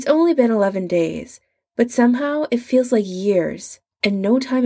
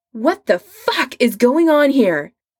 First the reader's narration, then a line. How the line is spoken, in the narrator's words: Adam shouts